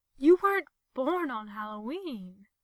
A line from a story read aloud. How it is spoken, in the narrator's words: gasps